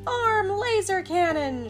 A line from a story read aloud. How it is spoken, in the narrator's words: shouted Alvin